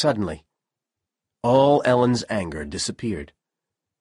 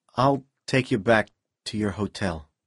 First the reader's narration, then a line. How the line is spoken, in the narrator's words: Powell said quietly